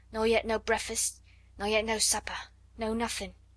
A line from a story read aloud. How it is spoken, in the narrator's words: more hoarsely still